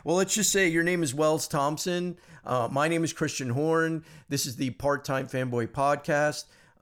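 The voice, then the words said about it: Slightly hoarse, raspy voice. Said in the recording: “I have a little frog in my throat this morning ... if I sound a little hoarse, that's why ... if I sound a little raspy”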